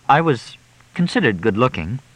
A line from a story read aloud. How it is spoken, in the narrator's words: Lucy said hesitantly